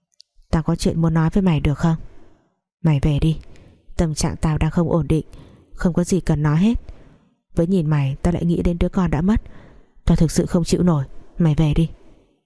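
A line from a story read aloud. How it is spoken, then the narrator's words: Sighing. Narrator (Vietnamese): Nó thở dài nói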